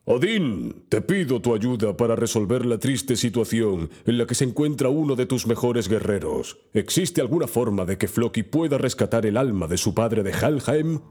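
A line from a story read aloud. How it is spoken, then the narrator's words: Deep voice, asking aloud. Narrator (Spanish): con una voz profunda preguntó al aire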